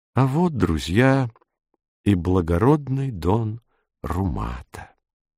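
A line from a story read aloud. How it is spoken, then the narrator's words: Quiet and gentle. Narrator (Russian): дон Ребе тихо и ласково сказал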